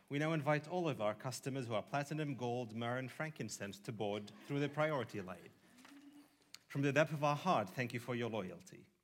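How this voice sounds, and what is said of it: Put-on British accent. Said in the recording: “I switched to a British accent.”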